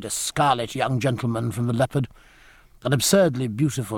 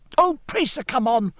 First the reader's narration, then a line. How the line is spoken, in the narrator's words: cried Forshaw over his shoulder